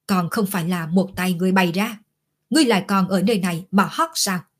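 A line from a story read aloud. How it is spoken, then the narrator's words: Angry roar. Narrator (Vietnamese): nổi giận gầm lên một tiếng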